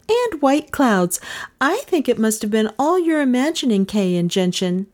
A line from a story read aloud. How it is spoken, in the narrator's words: she cried